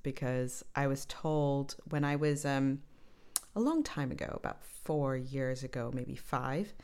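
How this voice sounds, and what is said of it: Deliberately lowered radio voice. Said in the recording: “this is absolutely my radio voice ... you need to drop it down”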